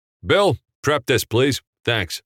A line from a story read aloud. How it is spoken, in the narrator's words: Frank commanded loudly